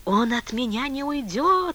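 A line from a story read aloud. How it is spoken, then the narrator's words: Sleepy whisper. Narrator (Russian): шептал Типуев, засыпая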